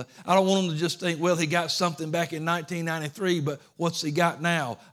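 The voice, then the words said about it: Southern US Georgia accent. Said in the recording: “this good old Georgia Southern accent”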